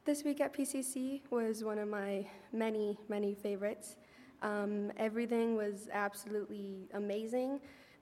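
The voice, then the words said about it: Shaky, nervous voice. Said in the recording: “my voice is shaky”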